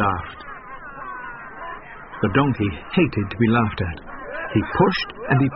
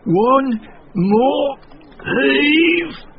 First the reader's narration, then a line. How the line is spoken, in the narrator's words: gasped as they stumbled up